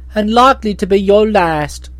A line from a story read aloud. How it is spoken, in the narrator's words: exclaimed the boy sneeringly